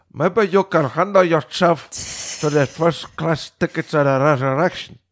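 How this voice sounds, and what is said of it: Imitates another person's voice. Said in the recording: “you sound just like ... him.”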